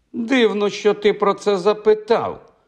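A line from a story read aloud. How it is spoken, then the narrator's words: Exclaimed. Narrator (Ukrainian): вигукнула Меган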